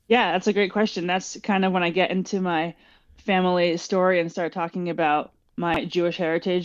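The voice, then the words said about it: American accent. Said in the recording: “this person who sounds American”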